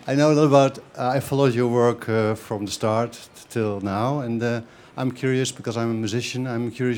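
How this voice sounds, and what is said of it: Foreign accent. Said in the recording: “I can tell by the accent.”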